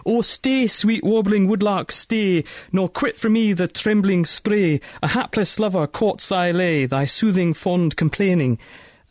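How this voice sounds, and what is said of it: Poor put-on Scottish accent. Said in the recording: “my terrible attempt at Scottish accent.”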